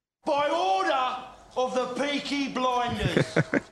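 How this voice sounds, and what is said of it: Put-on Peaky Blinders accent. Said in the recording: “that accent. It's gold.”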